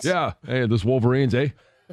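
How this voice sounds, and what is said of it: Put-on slight Canadian accent. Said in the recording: “Start speaking with a slight Canadian accent.”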